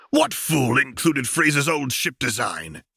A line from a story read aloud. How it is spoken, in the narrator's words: he snarled